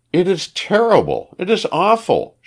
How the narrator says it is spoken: she cried

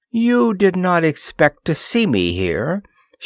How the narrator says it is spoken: she said hoarsely

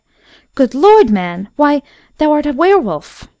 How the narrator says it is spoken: she cried out in terror

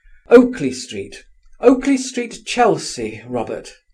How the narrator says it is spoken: cried

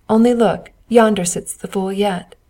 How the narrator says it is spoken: They laughed as they passed and said

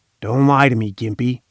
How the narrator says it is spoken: he said raspingly

